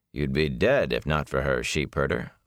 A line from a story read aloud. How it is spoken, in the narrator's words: Lan said flatly